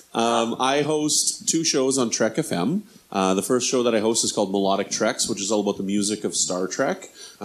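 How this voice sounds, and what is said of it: Canadian accent. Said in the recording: “I'm Canadian. As you can probably tell from my my accent”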